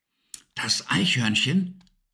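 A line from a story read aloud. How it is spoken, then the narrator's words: Excited whisper. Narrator (German): flüsterte aufgeregt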